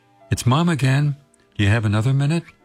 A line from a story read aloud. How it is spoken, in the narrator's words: she asked